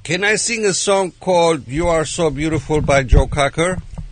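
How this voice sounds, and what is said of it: Foreign accent. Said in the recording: “Because my accent, huh? ... But it's his accent.”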